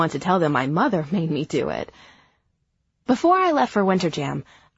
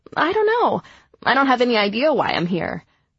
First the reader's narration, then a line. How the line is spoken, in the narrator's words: All I could blurt out in response was